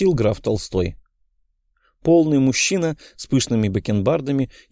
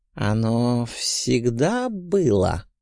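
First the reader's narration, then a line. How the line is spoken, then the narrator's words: Soft drawl. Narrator (Russian): мягко протянул князь Волконский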